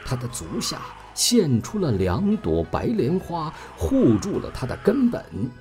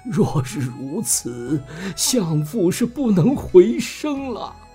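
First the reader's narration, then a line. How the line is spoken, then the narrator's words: Wailing, sobbing. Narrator (Chinese): 武王闻说大哭道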